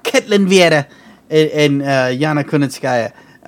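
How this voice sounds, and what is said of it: Put-on Irish accent. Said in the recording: “like Irish accent”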